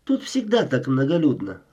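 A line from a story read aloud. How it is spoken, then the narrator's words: Thoughtful inquiry. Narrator (Russian): Задумчиво она осведомилась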